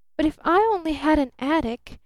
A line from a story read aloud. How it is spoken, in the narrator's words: she cried out with apparent irrelevance